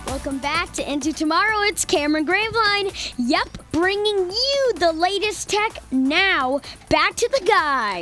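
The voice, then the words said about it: Imitates another person's voice. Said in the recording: “Are you mimicking Cameron?”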